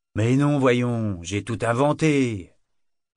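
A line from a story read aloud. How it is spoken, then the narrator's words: Sour retort. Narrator (French): répliqua Brachen d'un ton aigre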